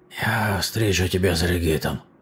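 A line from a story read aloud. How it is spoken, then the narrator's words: Muttered. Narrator (Russian): пробормотал он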